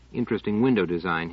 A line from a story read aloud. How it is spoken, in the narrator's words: said